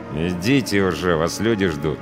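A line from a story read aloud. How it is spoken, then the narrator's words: Through gritted teeth. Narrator (Russian): процедил сквозь зубы пограничник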